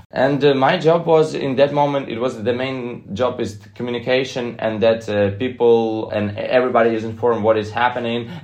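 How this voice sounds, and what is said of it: Non-native English accent. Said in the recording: “I can speak like also perfectly, but with my own accent.”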